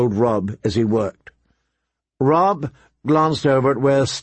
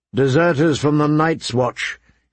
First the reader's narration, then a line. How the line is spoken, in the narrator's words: said grimly